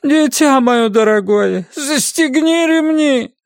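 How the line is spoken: Moaning. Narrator (Russian): стонала тетка

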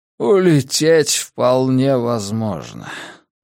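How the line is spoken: Weary voice. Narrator (Russian): устало произнес Силен

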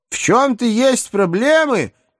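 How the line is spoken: Tearful hopeful shout. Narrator (Russian): Едва сдерживая слезы, с надеждой крикнула Рахиль

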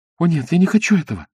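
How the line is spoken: Pleading. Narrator (Russian): взмолилась Исабель

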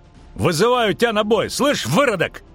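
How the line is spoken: Shouting. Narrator (Russian): крикнул цикада

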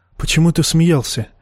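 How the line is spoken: Quiet question. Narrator (Russian): тихо спросила женщина

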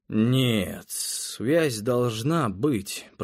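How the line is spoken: Muttered. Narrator (Russian): пробормотал я

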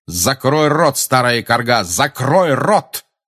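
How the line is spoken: Harsh bark. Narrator (Russian): рявкнул он

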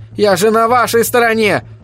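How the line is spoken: Shouted while running. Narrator (Russian): выкрикнул он на бегу

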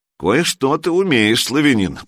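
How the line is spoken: Grumble. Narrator (Russian): проворчал ярл

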